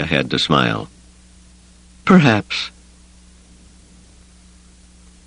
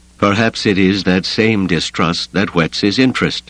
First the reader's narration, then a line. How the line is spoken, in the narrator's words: the Matrox said dryly